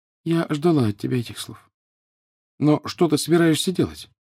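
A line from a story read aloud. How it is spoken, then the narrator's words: Sad. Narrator (Russian): Гермиона лишь печально сказала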